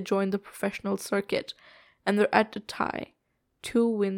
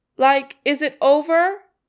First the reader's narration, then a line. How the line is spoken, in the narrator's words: He shouts